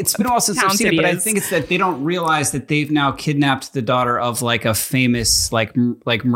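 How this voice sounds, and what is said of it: Usual voice. Nothing is said of it.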